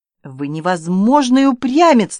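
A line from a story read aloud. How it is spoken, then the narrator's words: Exclaiming. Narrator (Russian): воскликнула мадемуазель Серова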